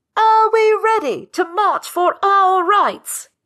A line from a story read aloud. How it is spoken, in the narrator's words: She shouts louder